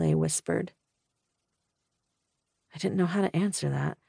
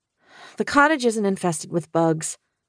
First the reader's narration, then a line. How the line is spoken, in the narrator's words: I blurted out